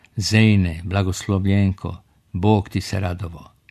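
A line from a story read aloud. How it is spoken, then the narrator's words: Calm, sober, raised over noise. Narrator (Serbian): iznenada nov glas Haninov izvise mirno i trezveno ponad sve te larme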